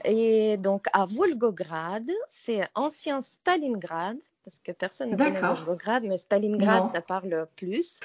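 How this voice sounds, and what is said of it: Slight Russian accent in French. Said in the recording (French): “ce petit accent ... c'est un petit accent russe”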